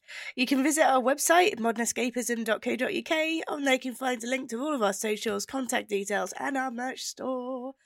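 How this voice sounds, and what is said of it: Almost cockney accent, congested voice. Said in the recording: “She sounds almost cockney with her accent. ... That's how I sound when I've got the colds.”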